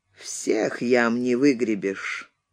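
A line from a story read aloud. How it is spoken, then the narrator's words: Coughing, muffled voice. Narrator (Russian): покашлял и глухо сказал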